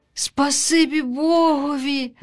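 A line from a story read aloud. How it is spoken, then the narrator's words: Sighing duckling. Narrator (Ukrainian): зітхнула вутятко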